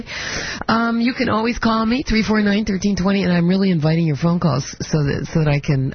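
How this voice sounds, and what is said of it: Deep, rough sick-sounding voice. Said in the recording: “apologize for my voice. I have a cold, or either that, or I'm turning into a boy”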